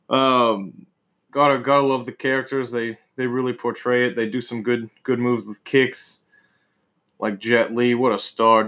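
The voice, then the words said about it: Northeastern US accent. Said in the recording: “This goddamn fucking northeastern accent. Can't get rid of it.”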